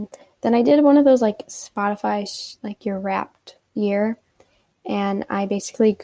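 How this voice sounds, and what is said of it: Usual voice. Nothing is said of it.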